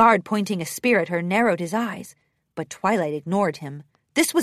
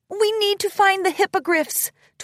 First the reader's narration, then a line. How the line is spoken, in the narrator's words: Twilight called out bravely